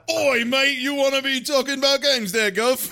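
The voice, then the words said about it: Deliberately bad British accent. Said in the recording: “a really bad British accent ... It's so bad. ... it's really rough. It's really fucking rough”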